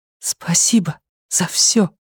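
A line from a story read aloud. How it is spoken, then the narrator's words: Whispering. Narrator (Russian): прошептала Люми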